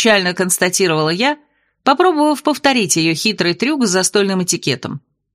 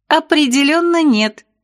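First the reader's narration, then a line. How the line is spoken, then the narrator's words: Giggling. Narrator (Russian): хихикнула она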